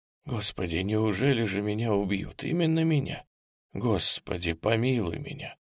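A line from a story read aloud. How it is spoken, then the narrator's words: Frightened whisper. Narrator (Russian): сказал он шепотом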